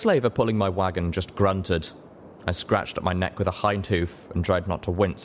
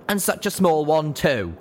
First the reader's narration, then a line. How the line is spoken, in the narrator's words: A guard buck called out